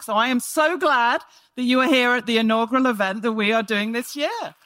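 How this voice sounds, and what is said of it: Non-local, London-based accent. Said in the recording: “you can probably hear from my voice that I'm not from these parts... I've been doing in London”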